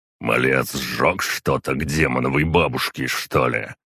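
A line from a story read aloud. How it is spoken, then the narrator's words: Skeptical snort. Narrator (Russian): хмыкнул глава клана Родовичей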